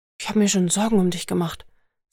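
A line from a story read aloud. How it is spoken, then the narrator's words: Soft female voice. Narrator (German): sagte sie leise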